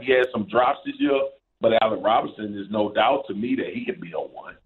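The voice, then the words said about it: Louisiana accent. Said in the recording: “unmistakable voice, that accent, that's a Louisiana accent.”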